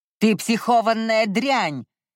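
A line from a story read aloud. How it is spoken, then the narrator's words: Barking. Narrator (Russian): рявкнул Иолай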